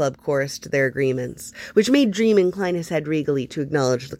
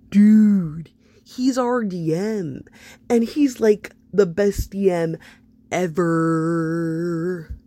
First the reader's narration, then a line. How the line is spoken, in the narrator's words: Iggy drawled